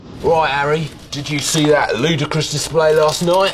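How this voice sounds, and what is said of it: Exaggerated football-fan voice. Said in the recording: “You were saying football things in a football voice.”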